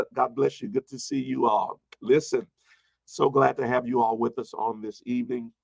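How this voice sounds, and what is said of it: Congested, slightly weak voice. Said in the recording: “You might already hear kind of congested right now... It's just allergy season for me, so I am a little bit congested... my voice is a little not as strong as it was, it's all allergy”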